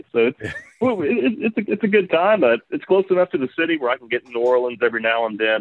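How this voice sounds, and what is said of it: Mississippi or Louisiana accent. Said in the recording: “You sound like you have that Mississippi or kind of Louisiana accent.”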